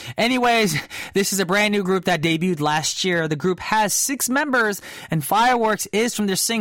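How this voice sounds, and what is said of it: Usual voice. Nothing is said of it.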